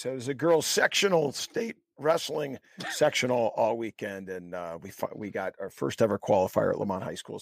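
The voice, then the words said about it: Raspy voice. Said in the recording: “I apologize for my raspy voice.”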